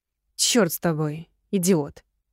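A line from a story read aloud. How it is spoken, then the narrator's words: Nervous growl. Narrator (Russian): Нервно зарычала я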